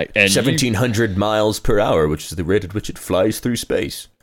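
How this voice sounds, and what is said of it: Impression of Neil deGrasse Tyson. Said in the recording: “It's my impression. ... Tyson.”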